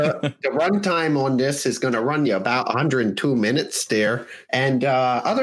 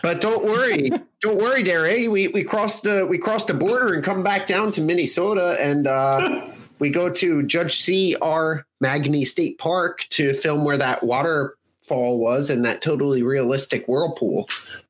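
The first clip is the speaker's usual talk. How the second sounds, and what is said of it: Minnesota accent drifting into British. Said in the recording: “Is that your Minnesota accent? ... I think that was my British accent. ... It started out like Fargo, but ended more British.”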